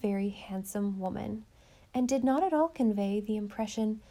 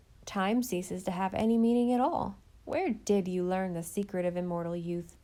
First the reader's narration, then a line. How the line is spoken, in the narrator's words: Christine laughed